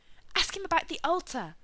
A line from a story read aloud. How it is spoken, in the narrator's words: Becky said frantically